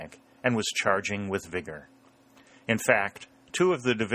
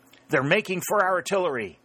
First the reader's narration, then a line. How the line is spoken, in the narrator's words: exclaimed Sherburne with true instinct